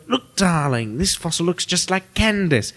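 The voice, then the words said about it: Good impression of a character. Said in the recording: “That was a good impression.”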